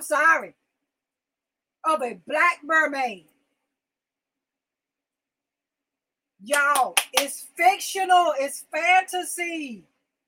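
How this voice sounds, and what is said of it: Yelling, loud agitated speech. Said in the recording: “And I'm yelling now. I damn sure, Leah, I'm yelling now.”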